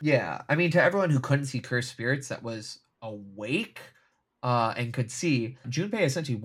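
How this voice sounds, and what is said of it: Usual voice. Nothing is said of it.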